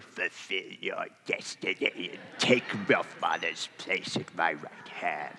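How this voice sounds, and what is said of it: Imitates Emperor Palpatine's voice. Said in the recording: “my Palpatine impression”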